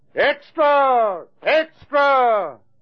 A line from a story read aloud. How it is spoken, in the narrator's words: the full-chested roar of two men shouting